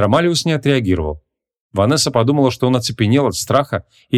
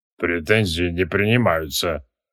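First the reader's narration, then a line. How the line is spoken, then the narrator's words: Guilty mutter. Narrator (Russian): виновато буркнул Андромалиус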